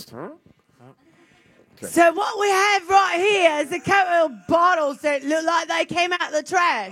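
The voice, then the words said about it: Put-on fancy British accent. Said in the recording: “fancy ... Your British accent. ... fancy”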